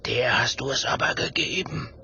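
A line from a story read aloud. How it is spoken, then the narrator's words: Whisper. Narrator (German): flüstert Willi Gerd zu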